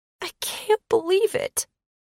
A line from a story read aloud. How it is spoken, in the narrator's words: Penny moaned